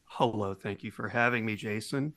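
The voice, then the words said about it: Smooth public-radio announcer voice. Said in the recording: “I'll try not to use this NPR voice so much.”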